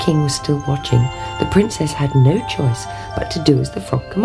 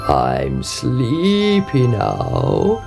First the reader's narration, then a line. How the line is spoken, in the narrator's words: he croaked